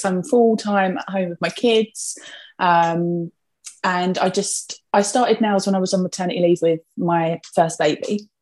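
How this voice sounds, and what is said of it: Essex English accent. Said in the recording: “if my accent doesn't give me away, I'm from Essex.”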